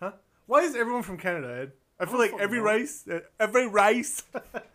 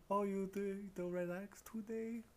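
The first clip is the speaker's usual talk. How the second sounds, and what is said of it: Put-on Asian accent. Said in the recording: “do an Asian accent”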